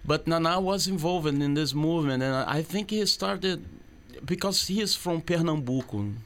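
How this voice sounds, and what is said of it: Speaks with a foreign accent. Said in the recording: “Sorry for my accent.”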